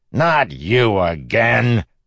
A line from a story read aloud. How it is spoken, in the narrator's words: The beggar cackled